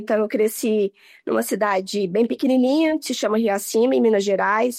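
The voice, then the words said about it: Minas Gerais Brazilian Portuguese accent. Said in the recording (Portuguese): “eu sou mineira pelo sotaque”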